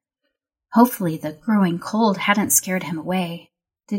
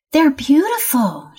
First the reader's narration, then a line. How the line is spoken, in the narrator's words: she exclaimed